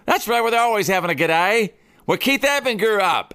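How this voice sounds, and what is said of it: Poor put-on Australian accent. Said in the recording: “that's a horrible Australian accent. I'm working on it.”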